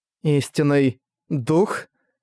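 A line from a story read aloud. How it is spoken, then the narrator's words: Hoarse mutter. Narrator (Russian): Хрипло пробормотала Энн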